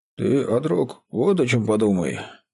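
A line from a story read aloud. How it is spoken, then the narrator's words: Husky breaking bass voice. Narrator (Russian): произнес Барма хрипловатым ломким баском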